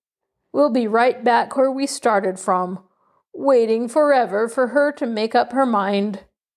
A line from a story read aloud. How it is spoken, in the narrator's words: said Uncle Telly gloomily